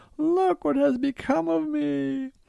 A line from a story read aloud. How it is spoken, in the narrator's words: she shrieked and cried